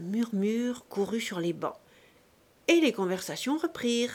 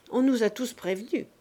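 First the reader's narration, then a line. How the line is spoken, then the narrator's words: Plain. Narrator (French): répondit M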